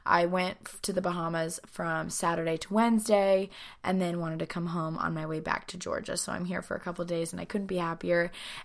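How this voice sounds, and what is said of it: Raspy, partly lost voice. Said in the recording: “my voice is a little raspy. I lost my voice ... I have a little bit of a cough ... it's definitely a little bit harder for me to like get out each word”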